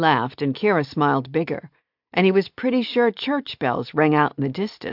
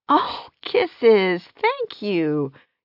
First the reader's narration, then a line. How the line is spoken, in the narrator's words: Kira said with a laugh